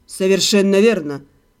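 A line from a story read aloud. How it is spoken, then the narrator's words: Calm confirmation. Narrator (Russian): спокойно подтвердил Седрик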